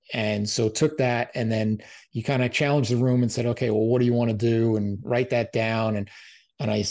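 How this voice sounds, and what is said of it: Usual voice. Nothing is said of it.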